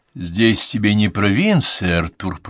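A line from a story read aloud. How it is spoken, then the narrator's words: Grumbling. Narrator (Russian): проворчал Уальд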